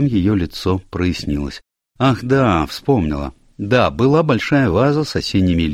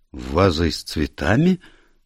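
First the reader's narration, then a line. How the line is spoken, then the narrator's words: Confused questioning. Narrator (Russian): растерянно переспросила Равена Дрейк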